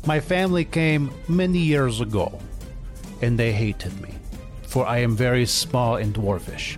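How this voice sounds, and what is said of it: Put-on Russian accent. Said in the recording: “my accent is not from America ... I am from Russia”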